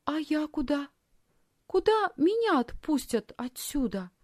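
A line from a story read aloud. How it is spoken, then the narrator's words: Timid question. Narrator (Russian): робко спросила Лисхин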